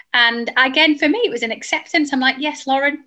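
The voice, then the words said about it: Strong northern English accent. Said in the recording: “We're very northern. Both of us are dead northern... my accent had toned down lots... you are extremely northern”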